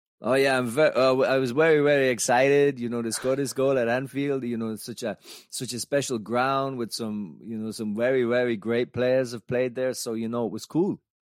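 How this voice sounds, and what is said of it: Impression of Jürgen Klinsmann. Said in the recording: “If I do an impression, it might help. ... Jürgen? ... Haven't heard that impression in a long time. ... Jürgen Klinsmann with the goals.”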